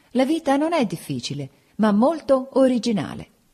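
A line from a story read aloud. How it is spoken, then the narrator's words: Laughing. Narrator (Italian): dissi ridendo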